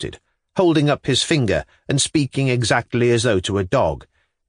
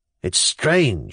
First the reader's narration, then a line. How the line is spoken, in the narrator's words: he muttered